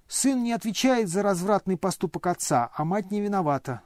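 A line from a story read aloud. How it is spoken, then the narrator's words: Heated shriek. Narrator (Russian): жаром провизжал Ипполит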